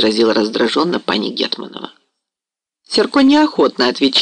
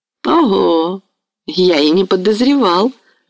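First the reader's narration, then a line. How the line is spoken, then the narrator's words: Smooth, flattering. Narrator (Russian): вмешался в разговор вкрадчивым льстивым голосом Самойлович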